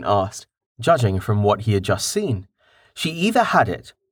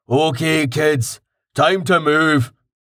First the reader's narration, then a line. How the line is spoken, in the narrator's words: Karten said loudly